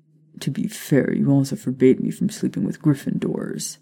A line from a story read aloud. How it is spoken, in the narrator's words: he mumbled